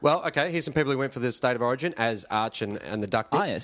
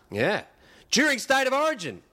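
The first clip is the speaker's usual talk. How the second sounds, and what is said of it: Yelling. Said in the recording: “exclamation mark, that's why I'm yelling”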